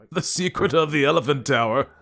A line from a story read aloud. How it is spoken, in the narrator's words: he exclaimed